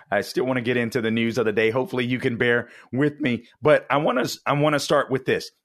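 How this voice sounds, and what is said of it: Raspy, rough voice. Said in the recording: “my raspy voice. I know it sounds bad”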